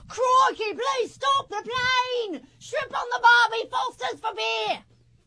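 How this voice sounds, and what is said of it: Put-on Australian accent. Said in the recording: “Australian ... I should probably do it in an accent.”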